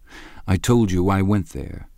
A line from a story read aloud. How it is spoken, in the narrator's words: said Gatsby